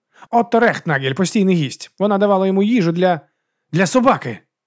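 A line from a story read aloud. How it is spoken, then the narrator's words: Exclamation. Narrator (Ukrainian): вигукнув Гаррі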